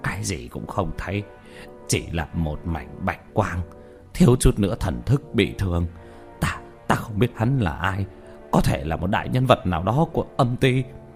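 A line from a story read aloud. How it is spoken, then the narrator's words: Frightened, bewildered muttering. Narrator (Vietnamese): Nhất Tâm vẻ mặt mờ mịt sợ hãi, lẩm bẩm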